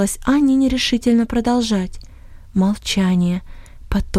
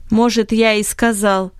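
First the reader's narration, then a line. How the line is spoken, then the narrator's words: Angry reply. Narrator (Russian): ответ Бенета звучал сердито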